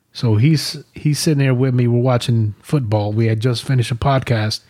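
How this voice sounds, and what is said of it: New York accent. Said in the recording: “I moved out to New York. That's why I have the accent”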